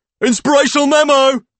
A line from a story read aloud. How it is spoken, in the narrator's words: Kevin exclaims